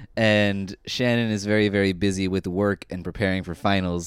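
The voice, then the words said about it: Sick, congested voice. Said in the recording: “in case you can't hear it in my voice, I am very, very sick.”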